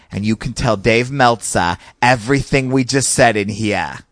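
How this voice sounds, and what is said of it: Thick Boston accent. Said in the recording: “who's from Boston and he has this real thick Boston accent”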